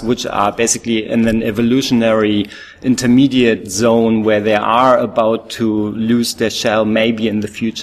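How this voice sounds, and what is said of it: German accent in English. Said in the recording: “my funny accent probably gives it away. I'm actually a German speaker”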